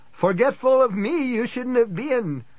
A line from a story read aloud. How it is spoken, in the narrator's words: Guy screamed, sounding like Yoda in the Star Wars movie